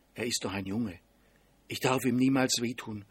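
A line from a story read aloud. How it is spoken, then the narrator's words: Whispered to herself. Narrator (German): flüsterte sie sich zu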